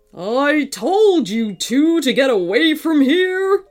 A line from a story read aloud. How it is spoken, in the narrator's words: roared the robot dinosaur over the volcano's rumbling